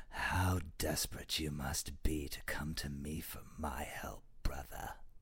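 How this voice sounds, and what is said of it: Imitates a film villain's voice. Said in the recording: “your Hiddleston voice ... my Loki voice ... a semi-passable Loki impression”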